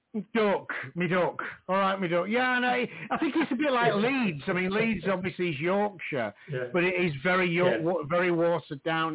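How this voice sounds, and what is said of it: Northern English Doncaster accent. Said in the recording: “I'm stuck with a Doncaster accent ... I could tell it was North”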